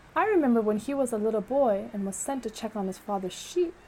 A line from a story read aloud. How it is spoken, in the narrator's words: said Shala